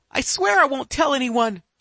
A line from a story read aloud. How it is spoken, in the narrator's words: she pleads